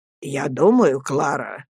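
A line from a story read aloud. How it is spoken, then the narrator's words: Quiet, serious. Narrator (Russian): тихо, серьезным видом заговорил мистер Мордстон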